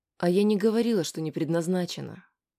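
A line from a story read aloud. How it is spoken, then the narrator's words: Calm. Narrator (Russian): спокойно сказала Аня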